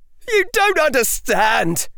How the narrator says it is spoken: yelled Aura Alternae

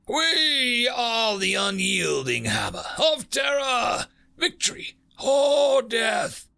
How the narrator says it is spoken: Bismarck roared across the channels

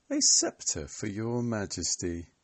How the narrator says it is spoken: sneered

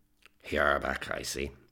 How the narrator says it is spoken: said in a slurred voice

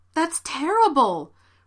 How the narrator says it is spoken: Rebecca exclaimed

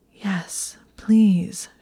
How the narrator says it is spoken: gasped

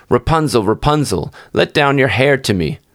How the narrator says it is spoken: an enchantress ... she cried

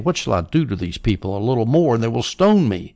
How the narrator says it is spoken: So Moses cried out to the Lord, saying

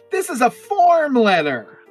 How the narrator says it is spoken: she yells

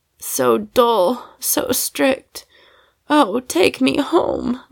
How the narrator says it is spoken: moaned Sally, like a naughty little gypsy

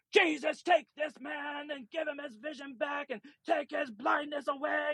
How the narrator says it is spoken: near the end, he's yelling in the store

